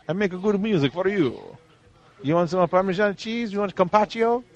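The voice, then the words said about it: Mock Italian accent. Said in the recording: “Clint Eastwood speaks Italian?”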